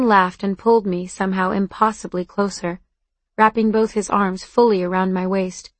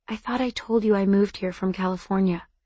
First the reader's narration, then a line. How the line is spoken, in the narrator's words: I whispered back